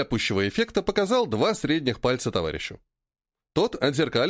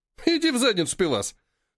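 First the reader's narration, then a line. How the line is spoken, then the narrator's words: Snorted. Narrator (Russian): фыркнул майонез, он же Мас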